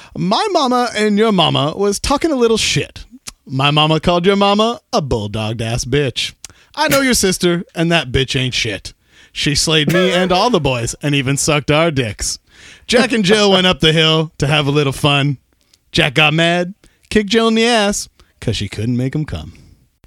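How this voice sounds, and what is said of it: Put-on English accent. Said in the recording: “do it in an English accent. I don't think I can do any of this in my real voice”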